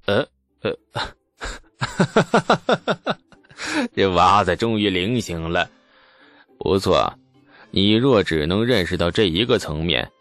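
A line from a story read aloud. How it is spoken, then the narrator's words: Hearty laughter. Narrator (Chinese): 牛进达愣了一下，直接放声大笑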